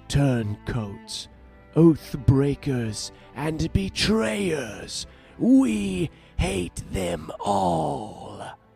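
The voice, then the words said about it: Somewhat poor character voice impression. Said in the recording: “my somewhat terrible impression”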